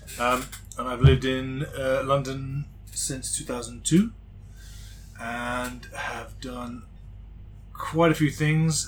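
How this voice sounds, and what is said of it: Intermittent American accent. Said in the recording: “the in-and-out American accent.”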